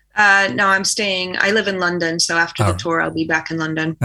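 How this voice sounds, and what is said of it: Slight American accent. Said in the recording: “I can just about tell that you're from America... this accent... A slight accent”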